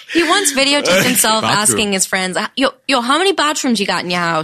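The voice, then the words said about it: Imitated Boston accent. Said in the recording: “Boston. ... That's a good accent.”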